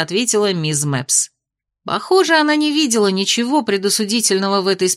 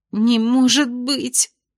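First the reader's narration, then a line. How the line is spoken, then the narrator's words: Sobbing. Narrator (Russian): всхлипнула сокурсница Майи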